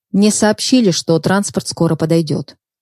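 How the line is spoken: Firm voice. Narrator (Russian): твердым голосом начала говорить Даша

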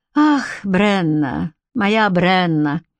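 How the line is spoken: Sigh. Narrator (Russian): вздохнул Энгус

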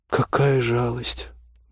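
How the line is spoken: Disappointed drawl. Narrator (Russian): протянула Ольга разочарованно

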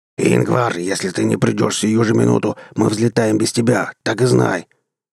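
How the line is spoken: Growled. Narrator (Russian): прорычал Брас

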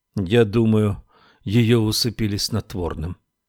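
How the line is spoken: Sad. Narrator (Russian): печально сказала Мэри Лу

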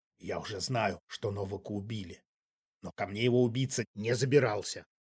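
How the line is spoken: Hiss. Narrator (Russian): прошипел музыкант

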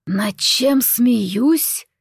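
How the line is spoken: Deep hoarse voice. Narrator (Russian): Прозвучал глубокий хриплый голос

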